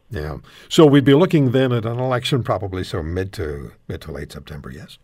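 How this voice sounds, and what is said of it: Congested, slightly odd-sounding voice. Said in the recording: “I'm still fighting allergies... my voice gets kind of weird... Sounds but, sexy though.”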